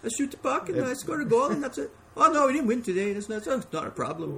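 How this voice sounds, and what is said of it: Put-on mixed foreign accent. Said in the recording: “If you go by that accent, I don't know where... There's even like Jamaican in there... you stay for the impressions”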